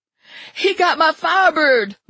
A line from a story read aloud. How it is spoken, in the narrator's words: Lula shrieked